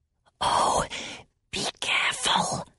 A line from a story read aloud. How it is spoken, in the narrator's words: whispered Salmakia